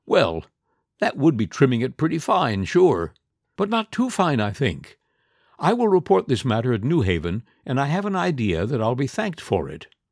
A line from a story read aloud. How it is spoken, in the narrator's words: The conductor laughed and said